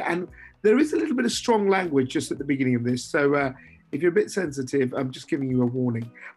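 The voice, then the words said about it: Hoarse voice. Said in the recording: “my voice is a little hoarse this week”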